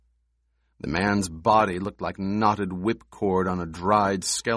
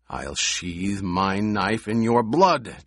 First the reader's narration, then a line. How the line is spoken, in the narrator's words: Jameis snarled